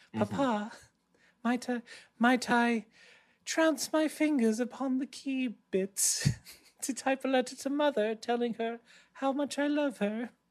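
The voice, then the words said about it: Put-on British accent. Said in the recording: “He spoke with a British accent.”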